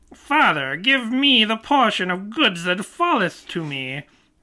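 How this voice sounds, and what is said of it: Performs a put-on character voice. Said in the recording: “I'll do a voice of Jesus doing a voice.”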